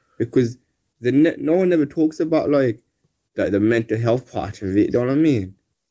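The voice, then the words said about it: Thick Birmingham accent. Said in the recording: “It's a strong accent. ... Thick. So thick Birmingham accent there, mate.”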